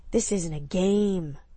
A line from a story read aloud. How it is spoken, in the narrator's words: his low growl warned her